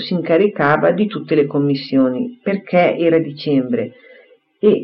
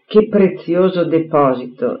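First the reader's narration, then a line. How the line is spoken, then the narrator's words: Tender sigh. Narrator (Italian): disse egli con un tenero sospiro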